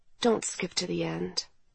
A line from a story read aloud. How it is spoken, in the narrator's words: he said gently